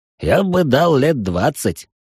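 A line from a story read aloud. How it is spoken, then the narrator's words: Man's snort. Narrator (Russian): хмыкнул мужик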